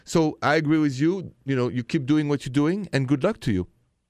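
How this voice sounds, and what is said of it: French accent. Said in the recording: “I don't like your French accent.”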